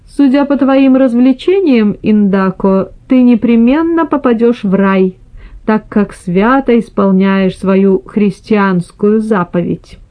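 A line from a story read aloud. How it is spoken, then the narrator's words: Laughing reply. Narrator (Russian): Микеланджело на это, смеясь, отвечал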